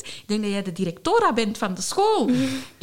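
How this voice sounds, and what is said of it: Heavy Spanish accent. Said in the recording (Dutch): “met een heel zwaar Spaans accent.”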